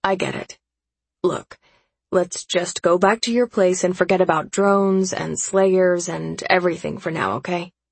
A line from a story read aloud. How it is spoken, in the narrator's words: I sigh, because this has been a pretty fucked up day